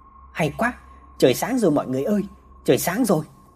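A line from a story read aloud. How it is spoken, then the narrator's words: Joyful group cheering. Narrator (Vietnamese): ai nấy đều vui mừng mà reo lên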